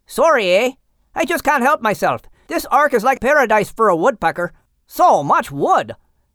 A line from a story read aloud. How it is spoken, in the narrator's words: Racket exclaimed, smiling